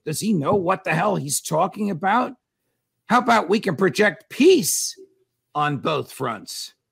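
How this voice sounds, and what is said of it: Raised, angry voice. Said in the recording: “raising my voice”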